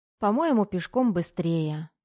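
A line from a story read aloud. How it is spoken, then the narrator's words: Sighing. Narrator (Russian): вздохнула Лиза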